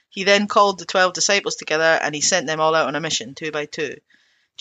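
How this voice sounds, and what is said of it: Speaker's own non-Cockney accent. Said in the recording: “It's going to sound weird because of my accent, and I can't do Cockney.”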